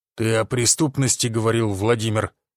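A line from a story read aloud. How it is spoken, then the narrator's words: Through gritted teeth. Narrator (Russian): процедил Гвоздев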